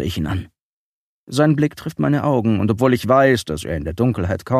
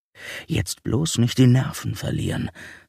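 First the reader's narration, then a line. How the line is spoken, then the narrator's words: Inner voice whispering. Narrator (German): flüstert die Stimme in meinem Inneren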